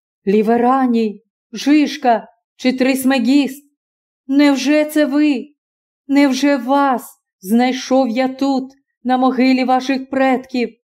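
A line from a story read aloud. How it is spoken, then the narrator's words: Joyful exclamation. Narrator (Ukrainian): вигукнув Спартак, осяяний щасливою здогадкою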